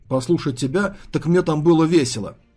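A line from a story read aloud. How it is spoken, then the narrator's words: Snapping retort. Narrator (Russian): огрызнулся Корн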